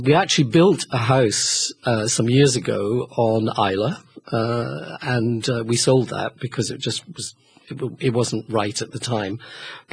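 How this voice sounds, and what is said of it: Noticeable regional accent. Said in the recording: “Oh, I love the accent.”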